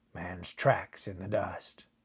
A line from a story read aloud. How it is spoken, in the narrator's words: grunted Buckner